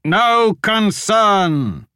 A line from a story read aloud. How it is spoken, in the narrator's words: He shouted